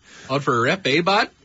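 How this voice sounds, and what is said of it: Exaggerated Canadian accent. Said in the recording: “It's a good Canadian accent right there. ... Yes, very good.”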